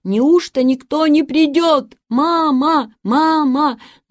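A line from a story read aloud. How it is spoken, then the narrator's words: Shouting. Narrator (Russian): Он снова закричал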